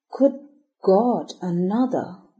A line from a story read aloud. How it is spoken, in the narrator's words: groaned Brayton